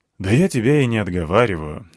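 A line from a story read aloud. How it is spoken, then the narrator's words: Sighing. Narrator (Russian): вздохнул я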